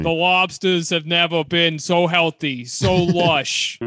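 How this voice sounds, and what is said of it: Impression with Maine accent. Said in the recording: “he doesn't have Boston accent, though. He has like Stephen King Maine accent.”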